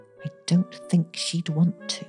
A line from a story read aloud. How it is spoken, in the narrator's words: she whispered